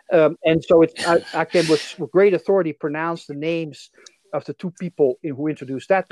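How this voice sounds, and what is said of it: Dutch accent in English. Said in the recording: “I'm originally from the Netherlands, as you can probably tell from my accent.”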